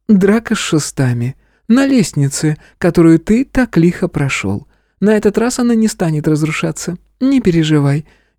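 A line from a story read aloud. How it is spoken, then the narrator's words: Sugary innocent girlish voice. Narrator (Russian): елейным голосом невинной девушки произнесла преподавательница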